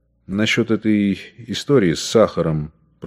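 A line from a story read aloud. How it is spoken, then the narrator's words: Embarrassed whisper. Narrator (Russian): прошептал он смущенно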